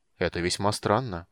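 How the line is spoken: Frowning mutter. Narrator (Russian): пробормотал Стурм, хмурясь

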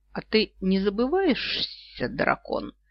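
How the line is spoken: Hissed reply. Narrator (Russian): прошипела в ответ

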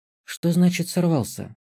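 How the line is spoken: Calm question while eating. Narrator (Russian): уточнила, не перестав спокойно поглощать суп

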